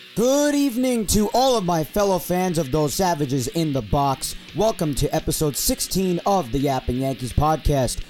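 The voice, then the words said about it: Strained voice. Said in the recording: “my voice is obviously strained... my voice is pretty strained, and I'm not going to be able to raise it that much without it sounding like utter crap”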